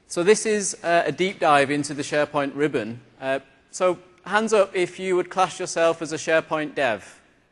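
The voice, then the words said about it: British London accent. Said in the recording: “I'm a SharePoint MVP from London in the UK. So I have a funny accent”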